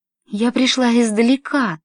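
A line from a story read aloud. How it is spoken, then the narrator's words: Anguished grieving female exclamation. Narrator (Russian): воскликнула она с мукой, словно одной лишь силой своего горя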